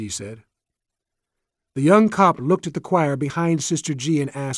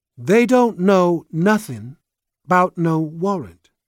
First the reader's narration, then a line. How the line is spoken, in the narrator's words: Sister G said